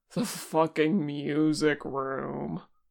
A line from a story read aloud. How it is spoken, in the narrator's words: Porsche groaned